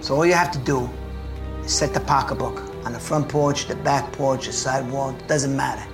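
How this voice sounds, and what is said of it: Very thick, deep Brooklyn accent. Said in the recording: “with the thickest, deepest Brooklyn accent”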